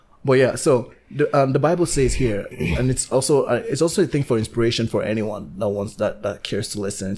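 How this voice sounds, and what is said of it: Sick, failing voice. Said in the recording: “I'm feeling a bit sick. My voice is going.”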